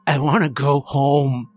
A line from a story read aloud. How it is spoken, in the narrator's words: he snarled